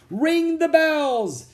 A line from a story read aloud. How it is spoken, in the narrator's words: King Arthur shouted